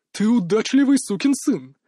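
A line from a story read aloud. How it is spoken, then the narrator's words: Joyful remark. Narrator (Russian): радостно сообщил Мак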